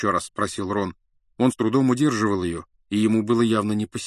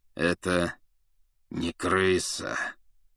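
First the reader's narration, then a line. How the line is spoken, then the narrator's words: Through gritted teeth. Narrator (Russian): процедил сквозь зубы Сириус Блэк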